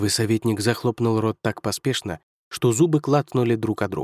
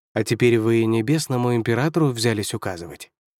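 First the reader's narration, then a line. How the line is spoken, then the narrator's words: Emperor's even-voiced question. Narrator (Russian): ровным голосом спросил небесный император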